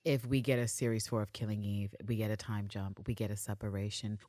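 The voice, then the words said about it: Very soft, quiet speaking. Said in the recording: “you see the way I'm talking very, very softly and quietly”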